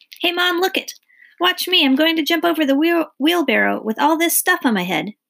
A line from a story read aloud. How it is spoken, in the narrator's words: he called out